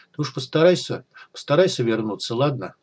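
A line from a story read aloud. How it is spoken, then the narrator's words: Sad, tearful. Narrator (Russian): Она грустно улыбнулась сквозь слезы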